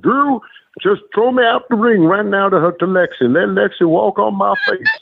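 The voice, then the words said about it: Impression of Tony's voice. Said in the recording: “a great imitation. ... A great Tony.”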